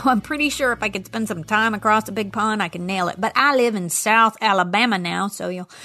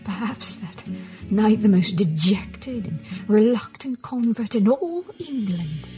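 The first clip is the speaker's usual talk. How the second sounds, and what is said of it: Poor put-on British accent. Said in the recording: “my very poor attempt at a British accent”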